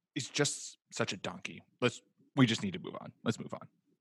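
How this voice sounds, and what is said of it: Exasperated impression of a friend. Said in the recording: “your Nick impression ... you have to then do the exacerbated”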